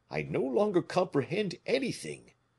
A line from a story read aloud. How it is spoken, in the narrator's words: murmured Porthos